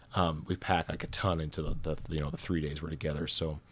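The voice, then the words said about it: Hoarse, strained, tired voice. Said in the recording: “I'm like losing my voice... completely worn out and beat”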